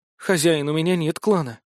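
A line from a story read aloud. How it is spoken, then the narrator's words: Sad reply. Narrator (Russian): как-то печально ответила она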